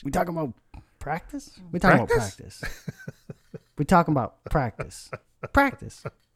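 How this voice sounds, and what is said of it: Imitates another person's voice. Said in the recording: “your best Allen Iverson impersonation”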